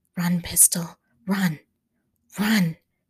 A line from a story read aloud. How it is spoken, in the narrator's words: breathed Stanley